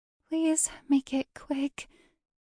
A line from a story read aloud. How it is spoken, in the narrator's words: she whimpered